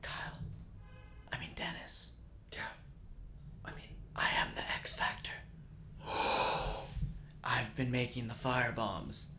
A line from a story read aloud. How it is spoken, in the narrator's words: whispers